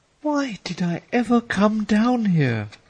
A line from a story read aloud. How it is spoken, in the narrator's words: she asked dramatically